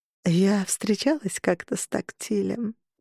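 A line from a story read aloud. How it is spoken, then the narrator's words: Purring. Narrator (Russian): промурлыкала Харпер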